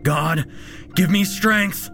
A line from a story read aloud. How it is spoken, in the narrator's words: he shouted aloud as the monster closed in on him